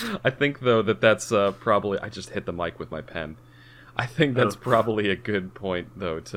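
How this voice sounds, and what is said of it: Usual voice. Nothing is said of it.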